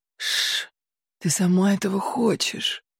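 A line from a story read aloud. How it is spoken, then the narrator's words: Breathy whisper. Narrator (Russian): выдохнул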